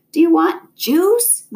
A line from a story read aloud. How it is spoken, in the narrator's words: Mom screamed